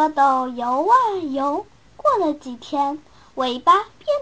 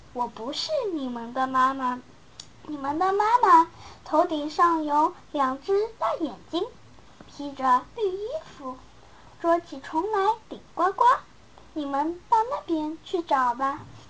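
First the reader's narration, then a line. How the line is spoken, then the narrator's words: Turtle, laughing. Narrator (Chinese): 乌龟笑着说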